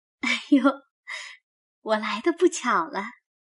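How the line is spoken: Laughing. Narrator (Chinese): 林黛玉…笑道

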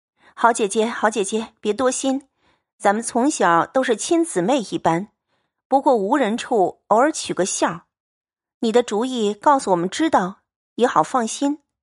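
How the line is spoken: Ingratiating pleading. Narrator (Chinese): 忙陪笑央告道

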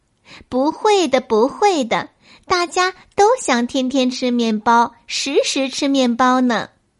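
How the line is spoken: Laughing. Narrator (Chinese): 熊笑了

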